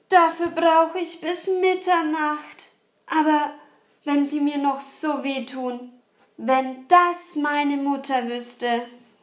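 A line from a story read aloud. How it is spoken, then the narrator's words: Sighing. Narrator (German): sagte es und seufzte dabei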